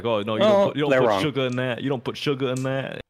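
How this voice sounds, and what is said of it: Put-on New York accent. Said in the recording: “That's my New York accent. ... It's not really a New York accent”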